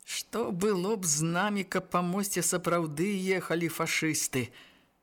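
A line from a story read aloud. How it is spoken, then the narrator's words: Nervous laugh. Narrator (Belarusian): нервова засмяяўся Шпакевіч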